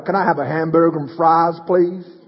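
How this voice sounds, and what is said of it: Poor attempt at American accent. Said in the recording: “I just try and be an American ... That wasn't very good, was it? I sound like a drunk Polish person right there.”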